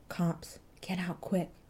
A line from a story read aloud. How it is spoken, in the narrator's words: he muttered